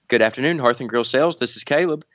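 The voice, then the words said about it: Formal telephone voice. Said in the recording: “my telephone voice. So this is my casual voice I'm using right now, but this one.”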